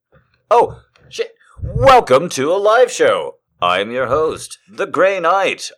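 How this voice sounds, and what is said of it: Deep, formal broadcaster baritone. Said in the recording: “I've put on a recording voice ... It's called the boring baritone”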